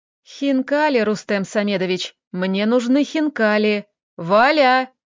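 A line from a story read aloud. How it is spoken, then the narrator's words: Loud call. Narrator (Russian): Громко окликнул он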